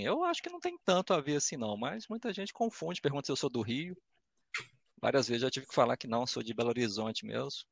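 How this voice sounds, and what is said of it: Belo Horizonte Minas Gerais accent. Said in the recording (Portuguese): “sua voz, assim, junto com seu mineirês, passa uma tranquilidade ... Você tem o típico sotaque belo horizontino, que é um pouco diferente do interior”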